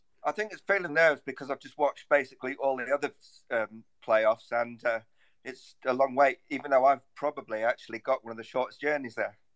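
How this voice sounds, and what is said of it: A distinctive accent. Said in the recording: “your wonderful accent ... the wonder that is ... accent”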